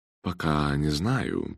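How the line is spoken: Low-voiced admission. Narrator (Russian): призналась она вполголоса

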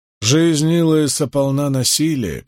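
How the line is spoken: Sad. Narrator (Russian): печально сказал Райн

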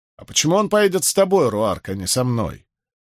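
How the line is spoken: Sharp tone. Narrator (Russian): произнес он резким тоном

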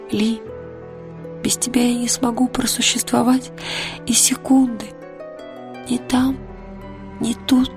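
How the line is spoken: Whispered reply. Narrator (Russian): шепнула она в ответ

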